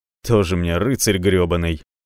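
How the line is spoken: Big man grumbling. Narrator (Russian): буркнул здоровяк

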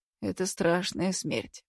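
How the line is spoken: Sighing. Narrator (Russian): вздохнул Руденчик

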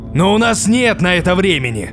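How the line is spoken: Furious roar. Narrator (Russian): Торвальд взорвался окончательно, перейдя на разъяренное рычание

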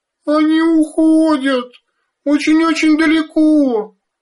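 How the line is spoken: Sobbing. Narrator (Russian): всхлипывала Бетта

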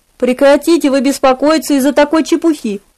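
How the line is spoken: Pleading. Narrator (Russian): взмолился он

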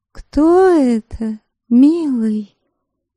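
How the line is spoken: Languid, coy voice. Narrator (Russian): томным, жеманным голоском вопросила бесстыдница

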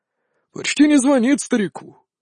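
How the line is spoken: Pleased grumbling. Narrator (Russian): с удовольствием заворчал он на привычную тему

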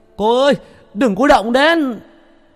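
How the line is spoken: Shouted. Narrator (Vietnamese): A Chiều vo gạo về hét lên

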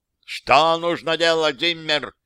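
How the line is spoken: Shout. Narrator (Russian): крикнул он

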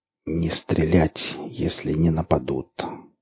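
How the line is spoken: Barely audible. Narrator (Russian): сказал бергамот еле слышно

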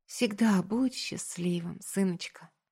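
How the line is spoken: Tender whisper. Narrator (Russian): Не зная, что сказать, я шепнула

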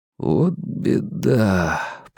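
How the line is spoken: Muttered. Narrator (Russian): пробормотал Стью

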